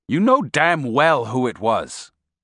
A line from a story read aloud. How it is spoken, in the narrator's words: he said